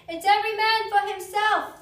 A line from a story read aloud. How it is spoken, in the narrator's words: the captain shouted to all his crew